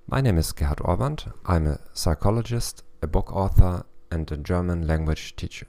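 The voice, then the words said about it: German accent. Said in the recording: “with the German accent”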